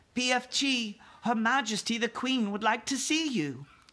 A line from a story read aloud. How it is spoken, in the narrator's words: Sophie turned her head toward the garden and called out